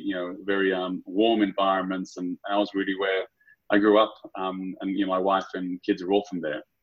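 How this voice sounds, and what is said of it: Australian accent. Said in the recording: “my weird accent... such a weird accent... Aussie through and through”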